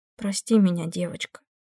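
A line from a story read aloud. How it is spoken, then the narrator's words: Said quietly. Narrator (Russian): тихо сказала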